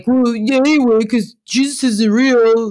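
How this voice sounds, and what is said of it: Mocking impersonation of a dismissive atheist. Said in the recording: “your atheist impersonation”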